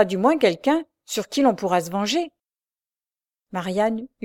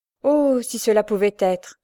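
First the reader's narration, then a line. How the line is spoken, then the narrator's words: Sighing. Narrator (French): soupira Julie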